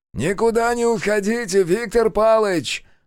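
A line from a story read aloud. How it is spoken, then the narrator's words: Mocking shout after someone. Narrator (Russian): насмешливо крикнул в спину Лукин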